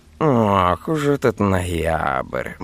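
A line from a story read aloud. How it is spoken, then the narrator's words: Meaningful drawl, cat. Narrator (Russian): многозначительно протянул кот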